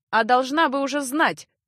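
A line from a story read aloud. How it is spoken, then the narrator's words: Harsh shout. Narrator (Russian): жестко оборвал комедию Эгрис и в никуда крикнул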